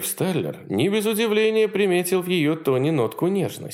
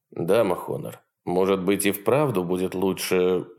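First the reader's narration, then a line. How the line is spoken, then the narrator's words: Muttering. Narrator (Russian): забормотал Уиллард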